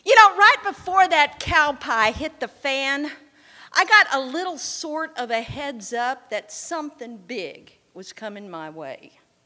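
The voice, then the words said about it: Texas-Oklahoma accent. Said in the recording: “my Texas-Oklahoma accent, honestly, too. I revert.”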